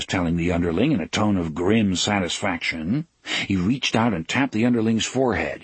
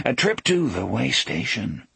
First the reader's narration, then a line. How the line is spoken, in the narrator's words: Jake muttered